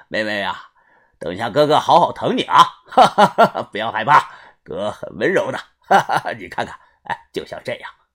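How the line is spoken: Leering, laughing. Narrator (Chinese): 他笑着冲着小轩说道

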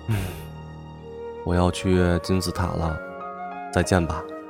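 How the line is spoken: Sighing. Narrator (Chinese): 燕子叹了口气，说

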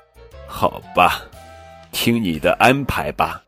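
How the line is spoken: Sighing. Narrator (Chinese): 小猪叹了口气

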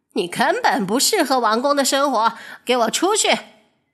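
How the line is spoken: Shouting. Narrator (Chinese): 她冲着布莱尔大喊

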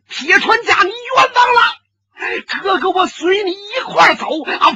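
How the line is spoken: Loud shout. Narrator (Chinese): 公孙宇大叫一声

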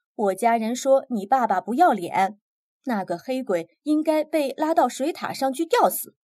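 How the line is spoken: Shouting. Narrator (Chinese): 他叫道

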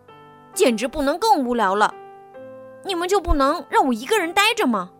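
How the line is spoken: Bad-tempered shout. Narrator (Chinese): 坏脾气的贝吉欢大喊

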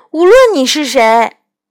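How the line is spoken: Loud. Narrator (Chinese): 我大声地对天马说

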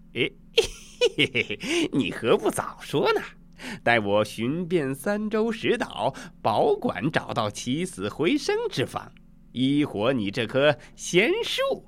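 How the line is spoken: Jovial laughing. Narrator (Chinese): 孙悟空笑呵呵的说

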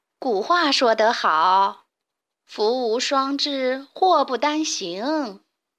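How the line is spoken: Sighing. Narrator (Chinese): 卡莉姨妈叹了口气

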